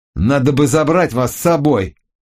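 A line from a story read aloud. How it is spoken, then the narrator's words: Angry growl. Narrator (Russian): прорычал злобно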